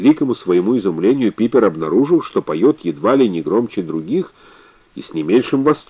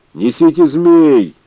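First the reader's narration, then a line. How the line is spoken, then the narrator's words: Shout from back rows. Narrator (Russian): крикнул кто-то из задних рядов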